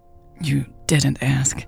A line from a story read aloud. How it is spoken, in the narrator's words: Louise said, her voice catching in her throat